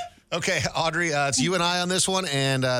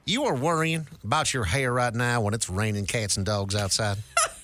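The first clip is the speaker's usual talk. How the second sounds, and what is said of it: Put-on Southern American accent. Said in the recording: “the note here in the script says Southern accent. So let's do our best”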